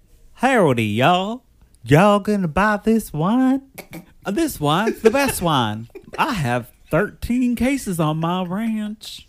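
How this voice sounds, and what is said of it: Put-on American Southern country accent. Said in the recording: “doing his best American country accent, which he calls a Texas accent ... a Southern accent”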